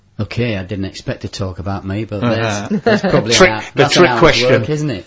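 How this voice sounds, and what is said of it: West Yorkshire English accent. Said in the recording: “your lovely accent ... I was born in South Leeds ... West Yorkshire”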